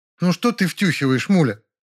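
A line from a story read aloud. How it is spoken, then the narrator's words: Indignant. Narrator (Russian): возмущенно сказала Белла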